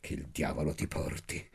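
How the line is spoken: Fervent murmur. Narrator (Italian): mormorai io fervidamente

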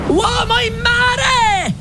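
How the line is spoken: Shout. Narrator (Italian): gridò

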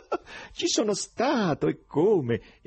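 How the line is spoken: Laughing exclamation. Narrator (Italian): esclamò sempre ridendo

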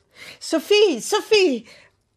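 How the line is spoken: Repeated shouting. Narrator (Italian): ho ripetuto gridando

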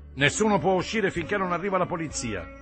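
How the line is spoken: Shout from the door. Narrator (Italian): gridò qualcuno dalla porta

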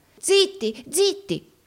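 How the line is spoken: Terrified exclamation. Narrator (Italian): esclamò Gride, atterrito

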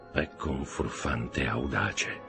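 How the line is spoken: Count's murmur. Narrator (Italian): mormorò il conte

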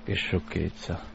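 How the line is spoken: Murmuring. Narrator (Italian): mormorò

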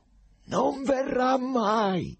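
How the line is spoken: Terrible shout. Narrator (Italian): gridò un tratto Pilato con voce così terribile

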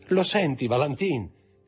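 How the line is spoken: Shouted. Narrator (Italian): gridò Aide

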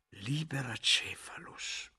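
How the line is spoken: Murmured. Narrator (Italian): mormorò Guglielmo

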